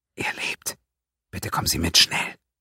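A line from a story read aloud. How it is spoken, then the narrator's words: Whisper. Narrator (German): fügte mit einem Wispern hinzu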